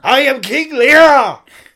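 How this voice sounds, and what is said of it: Theatrical screaming. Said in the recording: “Alright, calm down. ... I'm screaming through a tempest”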